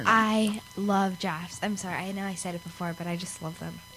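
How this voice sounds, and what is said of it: Congested, stuffy-nosed voice. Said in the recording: “I'm congested and my voice sounds, ugh.”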